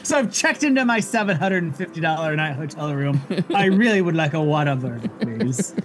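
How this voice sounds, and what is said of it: Snooty, part-British put-on accent. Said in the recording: “kind of an accent? ... I don't know what accent that was. It was okay. Part British, part ... I got snooty. Rich snob ... rich white woman”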